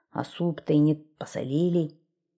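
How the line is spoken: Grumbling. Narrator (Russian): Стал он ворчать

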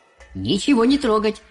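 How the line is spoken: Shouted. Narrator (Russian): закричал мистер Уонка

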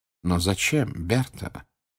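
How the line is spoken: Sad question. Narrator (Russian): печально спросил Дамблдор

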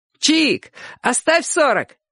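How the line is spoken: Joking shout. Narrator (Russian): крикнул кто-то в шутку

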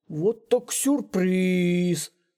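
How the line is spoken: Drawling, smiling. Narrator (Russian): протянул мистер Белка, улыбаясь малютке

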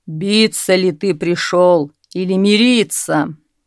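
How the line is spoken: Thunderous rumbling voice. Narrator (Russian): зарокотал враг громовым голосом

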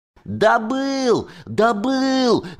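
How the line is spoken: Loud yelling. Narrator (Russian): вопил я на всю деревню

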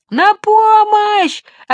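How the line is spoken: Shouted again. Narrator (Russian): опять закричал джип

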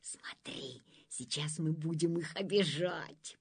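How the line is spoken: Whisper. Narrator (Russian): прошептал он

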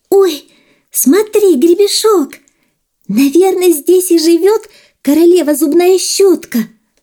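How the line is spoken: Joyful shout. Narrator (Russian): радостно закричала

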